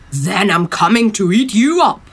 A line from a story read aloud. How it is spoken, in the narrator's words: roared the troll